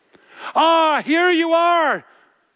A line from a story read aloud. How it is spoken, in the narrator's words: Bishop Myriel exclaimed